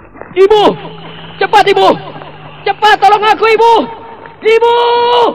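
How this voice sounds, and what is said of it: Screaming loudly for help. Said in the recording (Indonesian): “malam-malam berteriak-teriak begitu”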